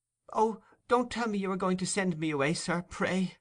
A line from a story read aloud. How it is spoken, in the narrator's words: exclaimed Oliver, alarmed at the serious tone of the old gentleman's commencement